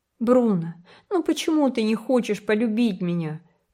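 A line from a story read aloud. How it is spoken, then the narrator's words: Nearly sobbing. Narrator (Russian): почти всхлипывал Джем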